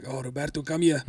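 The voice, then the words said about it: Bad put-on Portuguese accent. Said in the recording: “you gave my parents a bit of like a Portuguese accent. ... That was bad.”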